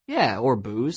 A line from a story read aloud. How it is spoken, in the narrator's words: said Shelley